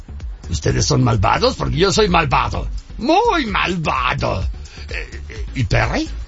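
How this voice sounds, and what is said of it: Cartoon villain character voice. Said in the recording (Spanish): “me puede hacer la voz? ... tienes a Heinz”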